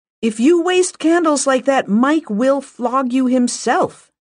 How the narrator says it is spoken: shouted up

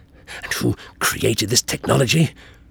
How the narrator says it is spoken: The Doctor hissed, trying hard but completely failing to keep his anger under control

